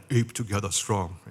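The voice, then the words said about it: Fake chimpanzee-like voice. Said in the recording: “Sorry for trying to do a fake chimpanzee accent”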